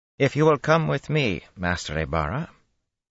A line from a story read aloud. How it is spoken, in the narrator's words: the woman said calmly